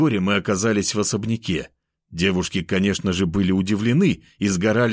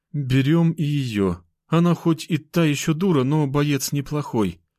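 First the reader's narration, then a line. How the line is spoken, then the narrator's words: Sighing. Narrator (Russian): вздохнула моя блондинка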